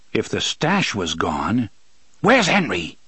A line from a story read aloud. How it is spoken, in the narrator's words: He said suddenly, so harshly